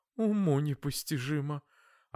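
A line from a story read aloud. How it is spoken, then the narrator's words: Startled mother babbling. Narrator (Russian): От неожиданности мама пролепетала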